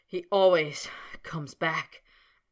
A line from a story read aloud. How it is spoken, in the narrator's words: panted Snape, grinding his teeth together